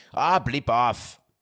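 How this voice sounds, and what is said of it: Attempted English accent. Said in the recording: “I was trying to just give you an English accent. Did I do that well?”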